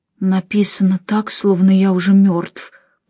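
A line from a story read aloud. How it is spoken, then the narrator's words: Whisper. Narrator (Russian): прошептал Нико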